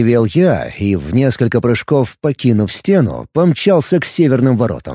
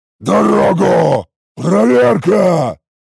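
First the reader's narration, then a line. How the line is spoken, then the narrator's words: Loud bellow. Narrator (Russian): Гаркнул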